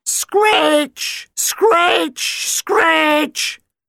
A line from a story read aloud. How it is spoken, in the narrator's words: The screeching was so loud